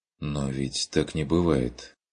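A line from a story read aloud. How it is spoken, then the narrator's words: Soft objection. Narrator (Russian): возразил Курт мягко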